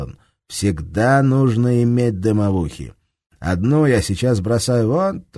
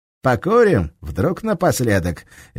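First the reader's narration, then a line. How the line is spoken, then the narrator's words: Cheerful yet angry question. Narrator (Russian): весело и зло спросил Серега у немца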